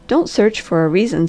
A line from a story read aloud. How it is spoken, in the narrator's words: said the Harvester, in his gentlest tones